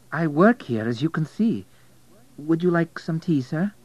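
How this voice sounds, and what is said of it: Polish accent. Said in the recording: “A Polish accent”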